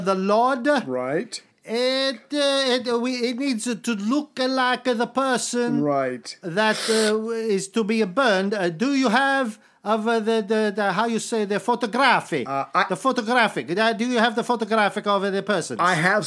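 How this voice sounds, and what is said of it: Exaggerated outrageous foreign accent. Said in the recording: “without an outrageous accent ... we this. all have outrageous accent here”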